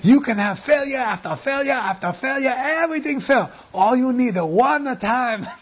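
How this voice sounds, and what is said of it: Put-on Chinese accent. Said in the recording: “this is a guy from China talking to me. That's me imitating his accent there.”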